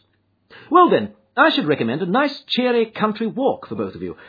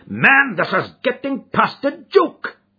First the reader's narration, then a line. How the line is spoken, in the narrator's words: cried MacDonald, angrily